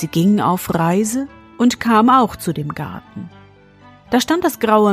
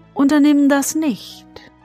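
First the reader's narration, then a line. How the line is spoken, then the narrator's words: Plain. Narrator (German): sagte das Männchen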